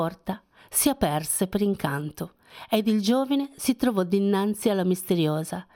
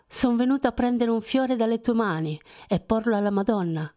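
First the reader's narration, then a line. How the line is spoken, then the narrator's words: Young man sighing. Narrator (Italian): sospirò il giovine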